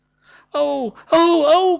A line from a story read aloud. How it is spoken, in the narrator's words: cried the girls